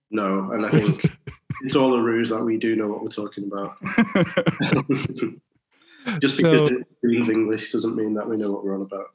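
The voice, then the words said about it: British accent. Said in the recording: “British accent ... I hear your accent”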